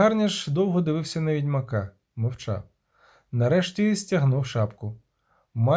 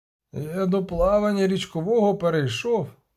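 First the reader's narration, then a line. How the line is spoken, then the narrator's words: Hoarse croak. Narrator (Ukrainian): прохрипів нарешті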